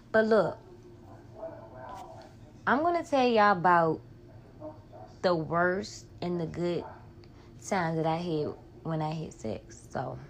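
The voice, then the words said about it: Home regional accent. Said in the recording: “I'm back home, that's why I got my accent back”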